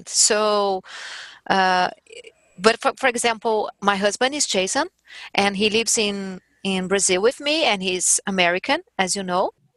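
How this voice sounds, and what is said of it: Strong non-native English accent. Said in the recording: “I have accent... I have a strong accent.”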